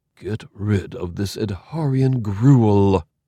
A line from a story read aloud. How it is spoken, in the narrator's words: he breathed